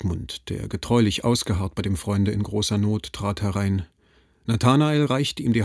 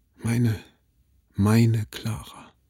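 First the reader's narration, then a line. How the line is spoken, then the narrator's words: Deep groan, wistful and delighted. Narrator (German): dem quollen vor lauter Wehmut und Entzücken die hellen, glühenden Tränen aus den Augen, und er stöhnte tief auf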